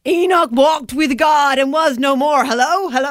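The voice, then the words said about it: Put-on American accent. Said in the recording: “that's my American accent”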